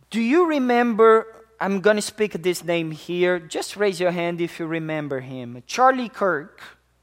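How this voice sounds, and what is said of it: Speaks with a noticeable accent. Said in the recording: “Maybe it's my accent.”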